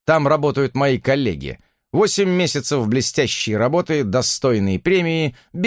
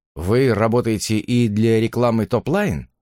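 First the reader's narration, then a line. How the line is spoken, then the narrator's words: Calm question. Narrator (Russian): спокойно спросил я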